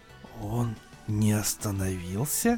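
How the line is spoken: Whispered. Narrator (Russian): прошептал Кембридж

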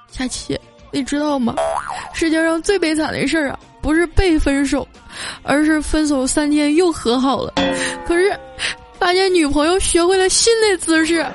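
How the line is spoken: Choked up. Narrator (Chinese): 小黑就哽咽着说

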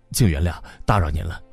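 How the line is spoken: Mumbling. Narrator (Chinese): 拉斯科尼科夫咕哝说

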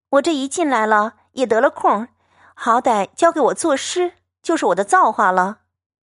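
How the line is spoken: Laughing. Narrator (Chinese): 香菱因笑道

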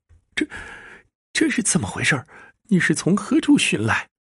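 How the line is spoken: Terrified servant, trembling voice. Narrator (Chinese): 那家丁也是面如死灰，颤声道

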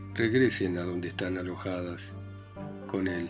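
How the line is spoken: Broken, halting voice. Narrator (Spanish): dijo Raskolnikov con una voz entrecortada

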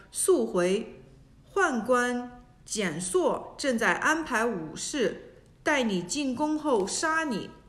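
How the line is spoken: Whispering. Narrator (Chinese): 司马潘颖小声告诉何进说

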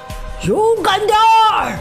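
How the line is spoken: Shouting. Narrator (Chinese): 尼格德姆斯叔叔大喊

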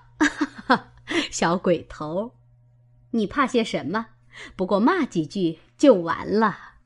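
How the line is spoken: Laughing. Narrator (Chinese): 薛姨妈笑道

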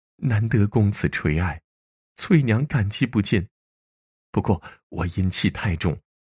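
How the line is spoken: Choked with sobs. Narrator (Chinese): 她哽咽着说

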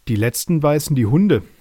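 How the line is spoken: Laughing voices. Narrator (German): lachten die Bananen

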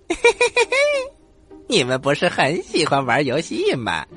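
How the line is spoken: Loud laughter. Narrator (Chinese): 孙悟空在半空当中哈哈大笑

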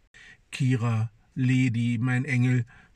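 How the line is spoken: Slurred stammering. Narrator (German): stammelt lallend

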